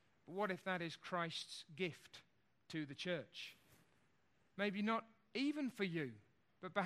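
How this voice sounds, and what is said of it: Usual voice. Nothing is said of it.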